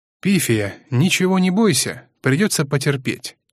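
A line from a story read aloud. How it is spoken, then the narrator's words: Plain. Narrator (Russian): сказал лидер клана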